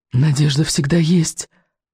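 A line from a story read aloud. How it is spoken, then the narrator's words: Whisper. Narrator (Russian): шептал невинность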